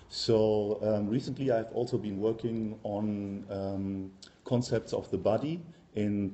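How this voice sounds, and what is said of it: German accent in English. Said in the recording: “as you can hear from my accent, I'm German by birth”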